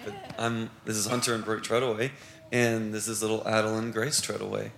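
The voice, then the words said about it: Worn-out, strained voice. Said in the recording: “My voice is also shot”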